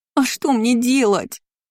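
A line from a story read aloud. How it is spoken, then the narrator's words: Moaning. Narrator (Russian): простонала Шарлотта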